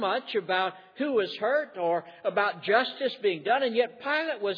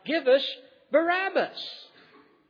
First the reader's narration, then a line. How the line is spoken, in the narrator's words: the crowd had cried out